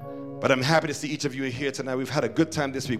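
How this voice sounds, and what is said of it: Strained voice, speaking low. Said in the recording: “my voice is saying something else ... I've been trying to speak low all day ... If you speak low, you save your voice.”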